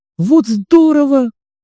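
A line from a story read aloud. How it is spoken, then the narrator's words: Delighted girl shouting. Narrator (Russian): закричала в восторге девочка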